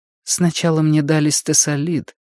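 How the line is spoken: Quiet. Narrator (Russian): тихо сказала Сага

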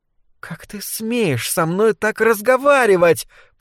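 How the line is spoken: Hissed angrily. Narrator (Russian): прошипела злокозня

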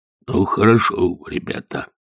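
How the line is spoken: Quiet. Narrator (Russian): тихо сказал он

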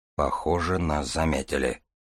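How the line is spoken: Muttered. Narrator (Russian): пробормотал Дар

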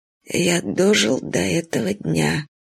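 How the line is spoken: Flat, muffled voice. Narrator (Russian): сказал Кович глухо

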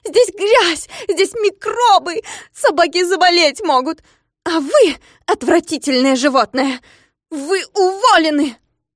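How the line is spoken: Shout. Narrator (Russian): закричала она

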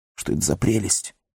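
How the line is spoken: Whisper. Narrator (Russian): шепнул Сэм

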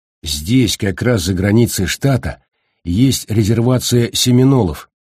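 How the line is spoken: Plain. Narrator (Russian): сказал Бейкер

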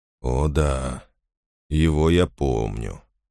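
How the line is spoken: Quiet. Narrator (Russian): тихо сказал он

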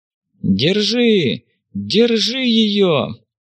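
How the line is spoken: Shouting from the street. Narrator (Russian): Кричали на улице

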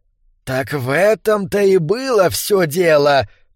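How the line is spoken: Hiss. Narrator (Russian): прошипел Брукалак

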